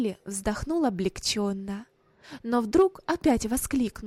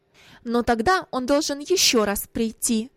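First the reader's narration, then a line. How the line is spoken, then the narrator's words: Sharp reply, mother. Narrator (Russian): ответила резко мать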